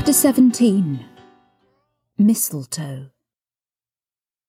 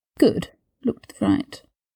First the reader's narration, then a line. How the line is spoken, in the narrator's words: Draco murmured